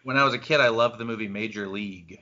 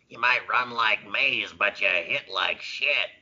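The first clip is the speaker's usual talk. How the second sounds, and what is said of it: Imitates another person's voice. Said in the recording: “I actually do an okay James Gammon impression ... Oh, that's very good. That's very good.”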